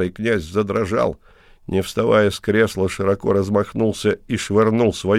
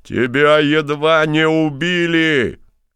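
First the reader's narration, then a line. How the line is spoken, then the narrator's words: Shouted. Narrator (Russian): крикнул князь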